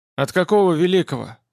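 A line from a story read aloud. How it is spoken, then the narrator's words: Angry question. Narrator (Russian): спросил Владимир злобно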